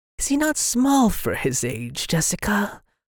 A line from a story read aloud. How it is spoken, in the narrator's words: the old woman asked, her voice wheezed and twanged like an untuned balisette